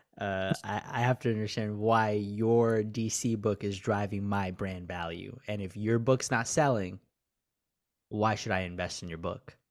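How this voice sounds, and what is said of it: Imitates a Shark Tank investor. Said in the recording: “his best Shark Tank impression”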